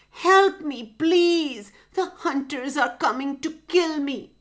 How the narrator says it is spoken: In a frightened voice, she said

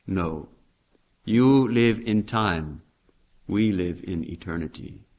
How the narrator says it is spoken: Swamiji replied very calmly

